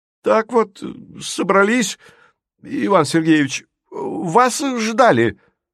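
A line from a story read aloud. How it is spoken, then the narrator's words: Timid, then powerful chorus. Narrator (Russian): Робко раздалось и тут же было мощно подхвачено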